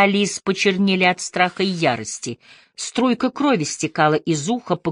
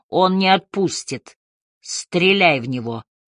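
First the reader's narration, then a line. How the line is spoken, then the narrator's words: Hoarse hiss. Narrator (Russian): хрипло прошипел Харри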